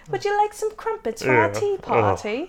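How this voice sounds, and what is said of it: Put-on British accent. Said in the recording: “I've never met a British person in my life who actually said crumpet... that's some shit we say when we're imitating them.”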